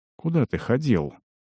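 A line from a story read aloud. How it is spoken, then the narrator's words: Quiet question, healer. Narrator (Russian): негромко поинтересовался лекарь Тара Аримира, Сеймин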